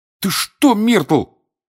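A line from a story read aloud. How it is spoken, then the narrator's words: Failed underwater shout, bubble. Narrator (Russian): хотел крикнуть Гарри, и вместо этого у него изо рта вылетел большой пузырь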